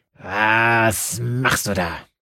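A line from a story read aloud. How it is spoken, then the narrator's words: Snarling growl. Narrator (German): knurrte sie an und bleckte die Zähne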